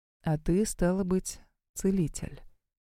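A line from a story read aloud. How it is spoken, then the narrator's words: Flat colorless voice. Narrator (Russian): проговорил он тем же бесцветным голосом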